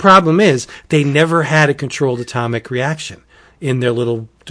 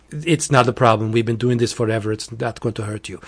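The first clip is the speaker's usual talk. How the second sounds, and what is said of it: Silly put-on foreign accent. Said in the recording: “you did do an accent ... It's a stupid accent.”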